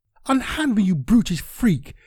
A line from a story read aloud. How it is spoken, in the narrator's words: Janice cried as she tried in vain to pull her arm away from the much stronger Carl